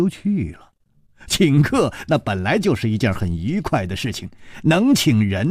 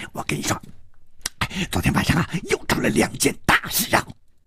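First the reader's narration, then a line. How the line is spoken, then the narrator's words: Hushed voice. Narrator (Chinese): 小火神压低声音说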